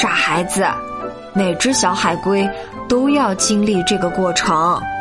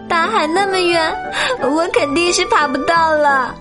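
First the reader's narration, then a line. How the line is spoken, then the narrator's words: Crying. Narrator (Chinese): 他哭着说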